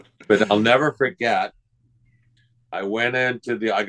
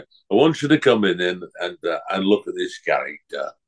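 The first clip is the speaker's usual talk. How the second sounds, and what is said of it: Imitated Lancashire accent. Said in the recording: “He's got a Lancashire accent, so pardon me.”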